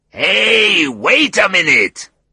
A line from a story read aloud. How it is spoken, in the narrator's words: Oswaldo's large voice bellowed down the phone line